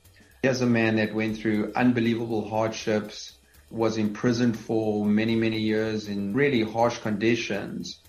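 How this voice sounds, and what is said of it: South African accent. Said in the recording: “having come from South Africa, and obviously my accent gives that away”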